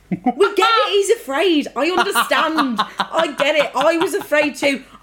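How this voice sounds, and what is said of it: Strong accent. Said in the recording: “My accent comes out so strong”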